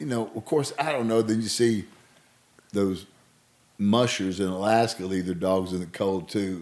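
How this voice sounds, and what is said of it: Thick Southern US accent. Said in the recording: “he's got a no thick Southern accent.”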